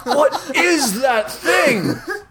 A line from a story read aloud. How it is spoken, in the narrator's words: Matt shouts